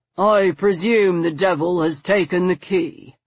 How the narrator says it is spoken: Stoker replied, his casual drawl muffled by the stout door

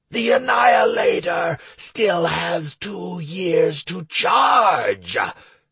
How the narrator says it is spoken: boomed the demon

